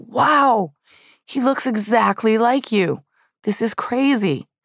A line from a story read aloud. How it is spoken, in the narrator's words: he yelled